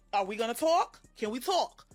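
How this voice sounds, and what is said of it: Imitates another person's voice. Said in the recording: “my Wendy Williams impersonation.”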